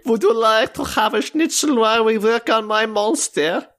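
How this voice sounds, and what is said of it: German accent as Dr. Frankenstein. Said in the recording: “You could also do the doctor and give us a good German accent. ... I'm Dr. Frankenstein”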